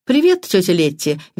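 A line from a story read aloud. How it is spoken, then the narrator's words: Cheerful greeting. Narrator (Russian): весело улыбнулся Патрик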